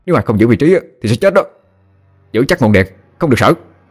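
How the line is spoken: Shouting. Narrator (Vietnamese): Thì Vương quát lên

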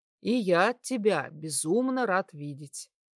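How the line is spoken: Tender. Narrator (Russian): ласково проговорил я

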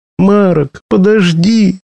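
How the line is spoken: Shouting. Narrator (Russian): закричала девушка

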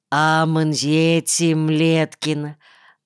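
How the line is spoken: Affectionate greeting. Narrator (Russian): ласково поздоровался Калянтагру

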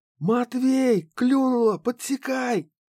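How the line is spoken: Loud yell. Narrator (Russian): завопил муха

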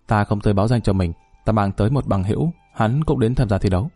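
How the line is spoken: Cold reply. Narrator (Vietnamese): Dung Băng lạnh lùng đáp

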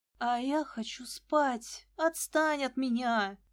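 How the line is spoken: Moaning. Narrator (Russian): простонала я

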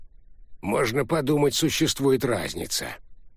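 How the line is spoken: Old man scoffing. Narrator (Russian): хмыкнул старик

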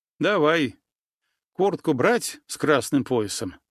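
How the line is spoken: Sighing. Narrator (Russian): вздохнул

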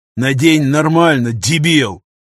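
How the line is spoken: Growl. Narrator (Russian): рыкнул пограничник

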